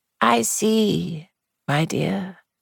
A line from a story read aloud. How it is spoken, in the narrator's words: she said very gently